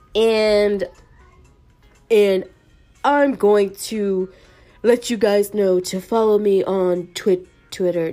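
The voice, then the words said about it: Imitates another person's voice. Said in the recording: “No, that sounds more like Trump. Oh my gosh. I'm horrible at voice impersonations.”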